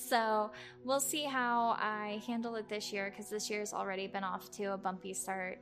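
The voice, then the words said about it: Tired, drained voice. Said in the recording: “I'm sure you can tell in my voice I'm a little bit tired and a little bit drained”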